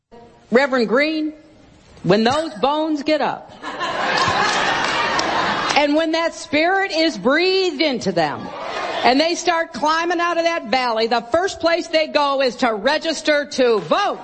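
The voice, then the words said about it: Put-on Southern accent. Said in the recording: “not in a Southern drawl ... She slips into that Southern accent again.”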